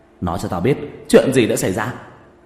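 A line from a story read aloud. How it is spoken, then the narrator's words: Flustered loud shout. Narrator (Vietnamese): Trần Kiến Ba mờ mịt luống cuống, hét lớn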